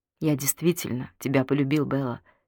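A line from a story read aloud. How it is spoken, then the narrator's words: Quiet. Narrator (Russian): тихо произнес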